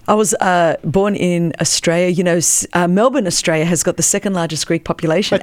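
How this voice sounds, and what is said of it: Australian accent. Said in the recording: “I thought I noticed an accent. ... this is how the convicts speak the Queen's English.”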